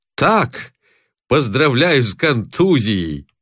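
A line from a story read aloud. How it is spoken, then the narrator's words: Someone shouting loudly. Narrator (Russian): громко выкрикивает кто-то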